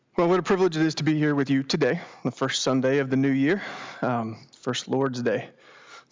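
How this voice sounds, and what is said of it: Congested, slightly choked-up voice. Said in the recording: “little choked up. I got a little congestion this morning”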